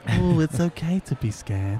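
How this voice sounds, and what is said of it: Patronizing imitation of Headspace narrator. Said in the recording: “nice, friendly northern accent ... He sounds so irritating, so patronizing.”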